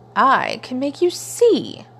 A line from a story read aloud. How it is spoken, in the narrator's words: Time sneered